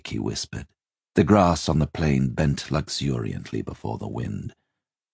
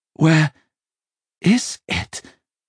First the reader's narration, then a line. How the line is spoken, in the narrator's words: Simon breathed, astonished and bewitched by its beauty